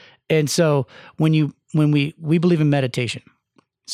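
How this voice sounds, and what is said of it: Usual voice. Nothing is said of it.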